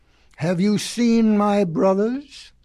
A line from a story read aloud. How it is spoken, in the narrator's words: he asked